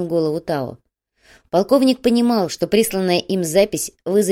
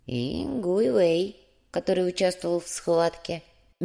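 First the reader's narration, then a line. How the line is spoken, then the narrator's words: Soft. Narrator (Russian): мягко закончил Ляо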